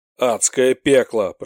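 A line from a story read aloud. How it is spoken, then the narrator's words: Growled. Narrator (Russian): прорычал один из его товарищей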